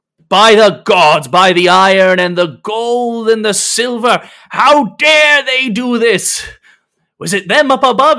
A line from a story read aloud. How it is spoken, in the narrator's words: irate and shouting